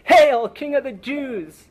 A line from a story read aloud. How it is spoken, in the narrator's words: they cried out mockingly